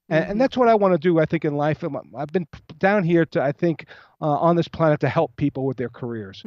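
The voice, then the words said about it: Fast-talking New York accent. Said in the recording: “he's from New York. He talks fast. He's got that silly accent”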